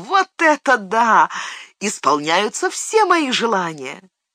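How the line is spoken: Joyful laughing exclamation. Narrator (Russian): Сэм радостно рассмеялся ... воскликнул

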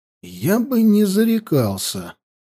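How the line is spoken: Quiet but very clear. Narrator (Russian): негромко, но очень внятно проговорил Хаста

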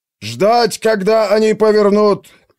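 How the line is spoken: Commander's piercing shout. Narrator (Russian): пронзительно крикнул командир

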